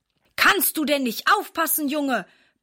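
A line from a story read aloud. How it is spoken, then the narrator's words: Angry bluster. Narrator (German): poltert er ärgerlich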